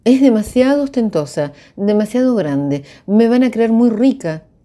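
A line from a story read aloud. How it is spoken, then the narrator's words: Exclaimed. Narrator (Spanish): exclamó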